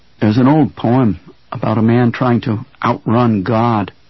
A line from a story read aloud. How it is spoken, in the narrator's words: Henry said